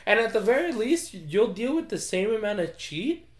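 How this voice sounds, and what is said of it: Own accent slips into a word. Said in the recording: “My accent came out.”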